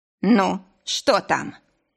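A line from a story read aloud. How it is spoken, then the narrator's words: Barked. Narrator (Russian): рявкнуть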